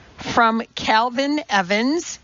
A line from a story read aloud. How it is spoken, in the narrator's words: said